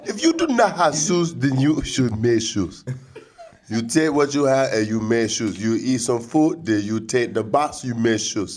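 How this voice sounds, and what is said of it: Bad put-on African accent. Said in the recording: “That is the worst African accent ever.”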